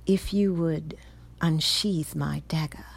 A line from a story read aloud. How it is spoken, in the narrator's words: he said slowly